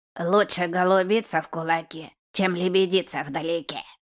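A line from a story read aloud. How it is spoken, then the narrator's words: Hoarse rasp. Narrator (Russian): прохрипел второй мужик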